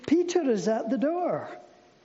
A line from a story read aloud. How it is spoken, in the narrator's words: she was so overjoyed, exclaimed